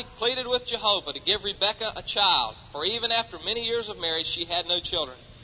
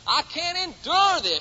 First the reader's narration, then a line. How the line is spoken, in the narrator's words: she exclaimed